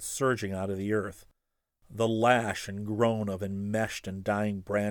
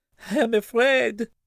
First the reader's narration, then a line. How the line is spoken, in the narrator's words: she gasped